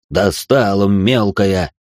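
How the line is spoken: Irritated growl. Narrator (Russian): раздраженно зарычал Даня

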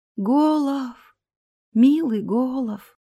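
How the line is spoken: Soundless moan. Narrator (Russian): беззвучно простонала она

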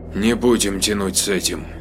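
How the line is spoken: Gloomy. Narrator (Russian): мрачно отозвалась Лизара

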